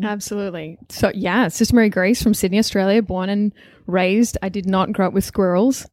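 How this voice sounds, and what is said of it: Australian accent. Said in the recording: “she's Australian... There's a bit of an accent there... I didn't put it on for the show. It's real.”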